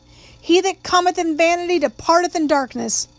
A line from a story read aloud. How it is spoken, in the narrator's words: a shrill-voiced woman called out